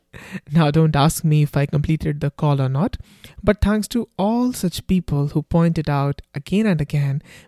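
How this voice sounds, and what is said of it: Thick Indian accent. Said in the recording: “I have a thick Indian accent”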